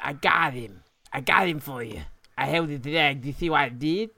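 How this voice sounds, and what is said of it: Odd character voice, lisping, high-pitched. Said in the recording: “I'm not sure what fucking accent that was ... that went from a weird lisp to a high pitch to a fat tongue lisp”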